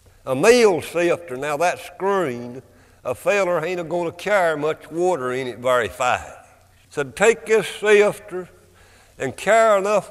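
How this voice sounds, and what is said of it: Thick regional Appalachian accent. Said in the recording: “spoke with a thick regional accent ... struggling with his dialect, his delivery”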